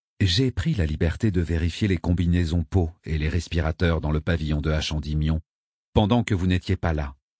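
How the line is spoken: Plain. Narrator (French): dit Abétik

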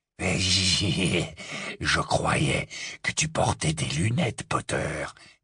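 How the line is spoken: Said breathlessly. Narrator (French): dit Greybac dans un souffle

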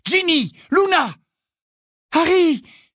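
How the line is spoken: Exclaimed. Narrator (French): s'écria Hermione

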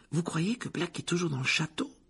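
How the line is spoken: Anxious murmur. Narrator (French): murmura Hermione d'un air anxieux

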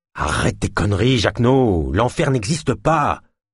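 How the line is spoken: Growling. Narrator (French): grogna Ulma

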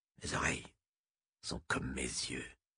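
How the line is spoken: Scorpion creature murmuring. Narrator (French): murmura le scorpiote

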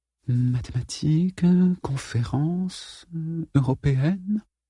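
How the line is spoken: Mumbling. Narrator (French): marmonna-t-elle

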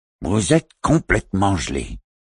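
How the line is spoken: Mock-stern grumble. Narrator (French): grommela-t-il faussement sévère

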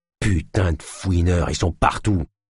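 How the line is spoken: Grumbled. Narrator (French): grommela l'homme

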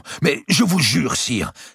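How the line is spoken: Exclaiming. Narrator (French): s'écria Évrard

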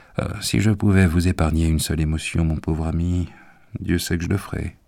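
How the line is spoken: Plain. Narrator (French): dit-il

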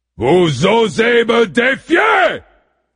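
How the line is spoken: Thundering voice. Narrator (French): tonna la voix de Zeus au-dessus de la plage, de la ville et du champ où s'étaient rassemblées les deux armées

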